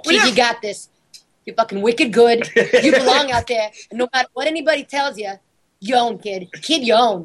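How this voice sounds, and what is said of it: Boston accent. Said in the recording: “does a pretty good Boston accent ... in the full Boston accent”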